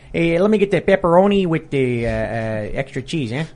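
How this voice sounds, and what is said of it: Put-on Chicago accent. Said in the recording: “do your Chicago accent? ... Asking for a Chicago accent. ... if you order your pizza with Chicago accent here”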